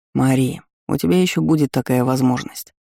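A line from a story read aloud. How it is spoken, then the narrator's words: Soft interruption, beloved man. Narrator (Russian): мягко перебил любимый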